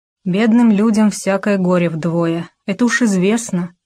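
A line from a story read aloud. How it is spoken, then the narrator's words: Plain. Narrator (Russian): сказала Маша Савина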